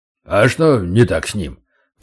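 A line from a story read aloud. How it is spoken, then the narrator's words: Deep bass, huge man. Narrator (Russian): пробасил невероятных габаритов егерь Гена Столяров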